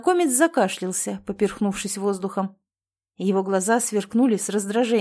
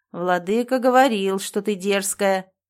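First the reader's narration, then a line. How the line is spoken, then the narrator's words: Grumbling. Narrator (Russian): проворчал он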